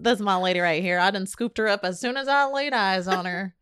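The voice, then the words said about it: Put-on Southern American accent. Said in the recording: “in their Southern accent.”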